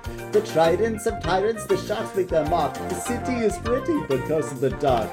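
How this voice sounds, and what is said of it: Thick Jamaican accent, hard to understand. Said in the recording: “slipped into the thicker Jamaican accent stuff here, so it's a little hard to understand.”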